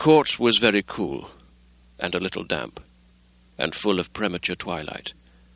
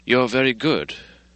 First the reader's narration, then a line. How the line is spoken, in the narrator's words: sighed the other